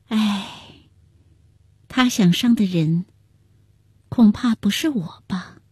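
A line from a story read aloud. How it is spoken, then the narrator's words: Sighing. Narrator (Chinese): 万贞儿叹了口气道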